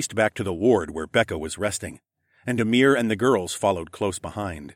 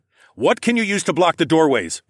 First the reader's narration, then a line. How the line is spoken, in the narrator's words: barked